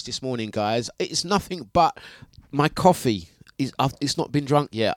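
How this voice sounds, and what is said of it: Tired-sounding voice. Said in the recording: “hear the tiredness in my voice”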